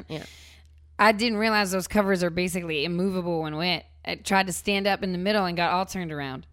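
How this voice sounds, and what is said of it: Put-on Virginia Southern accent. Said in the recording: “I'm going to try to do his ... little ... Virginia ... southern ... accent.”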